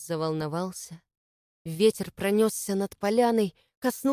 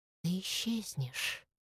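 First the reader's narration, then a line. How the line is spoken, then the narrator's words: Quiet whisper. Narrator (Russian): раздался тихий шепот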